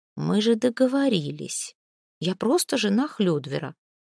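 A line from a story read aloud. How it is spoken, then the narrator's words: Sighing. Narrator (Russian): Снефрит вздохнула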